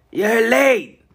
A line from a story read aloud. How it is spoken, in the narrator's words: Denton called out